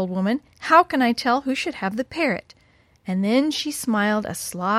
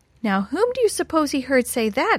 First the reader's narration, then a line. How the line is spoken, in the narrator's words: exclaimed the old woman